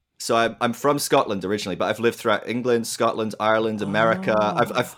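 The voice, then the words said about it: Blended Scottish and English accent. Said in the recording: “I am detecting an accent. I'm going to go with somewhere in, I'm going to go England ... It's a good English accent in the mix probably as well ... bit of a blend. Hard one to place”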